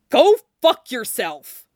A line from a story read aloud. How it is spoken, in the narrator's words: Jason retorted furiously